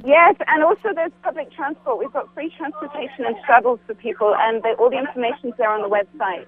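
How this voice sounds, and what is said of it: Strong, hard-to-follow accent. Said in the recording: “What an accent. I couldn't tell everything she was saying”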